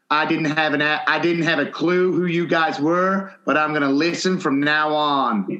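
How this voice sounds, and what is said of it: Unconvincing put-on American accent. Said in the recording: “Was that your American accent? ... Does that not sound American? ... I don't know where in America that was, but that, that was something. ... He might have been Irish.”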